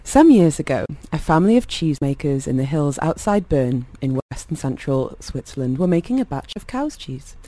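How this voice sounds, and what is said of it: Storyteller voice. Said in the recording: “put on my storyteller voice”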